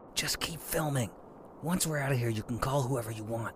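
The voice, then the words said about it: Quiet whispering. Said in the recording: “Why all the quiet whispering?”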